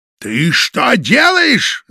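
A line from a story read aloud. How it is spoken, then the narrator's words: Shouted. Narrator (Russian): закричал уже фон Шпинна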